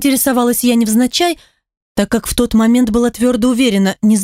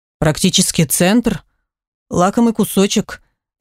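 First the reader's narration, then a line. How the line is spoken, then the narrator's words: Sigh. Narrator (Russian): вздохнул Пашка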